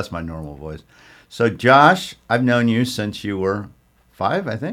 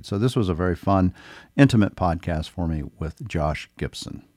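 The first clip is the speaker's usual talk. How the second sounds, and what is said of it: Lowered deep radio-announcer voice. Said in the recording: “My voice is lower than usual. I've got the radio voice.”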